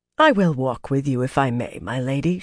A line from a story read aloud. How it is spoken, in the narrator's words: said calmly